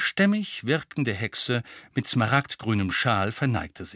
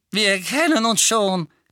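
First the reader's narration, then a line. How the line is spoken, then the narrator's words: Lively squeak. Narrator (German): quiekte der quirlige Dickel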